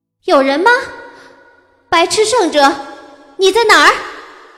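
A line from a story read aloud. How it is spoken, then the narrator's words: Loud. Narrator (Chinese): 我大声道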